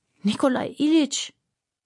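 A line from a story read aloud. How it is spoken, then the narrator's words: Groaning. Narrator (German): stöhnte Aljoscha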